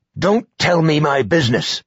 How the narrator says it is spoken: snapped

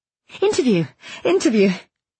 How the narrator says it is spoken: gave a false laugh and said

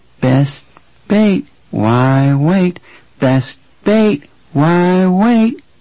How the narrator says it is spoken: In a chanting, childish voice that made Kurtz's skin crawl, Archie Perlmutter said

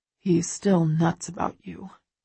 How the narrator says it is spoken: Christian says quietly

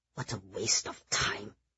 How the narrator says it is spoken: Jack muttered under his breath

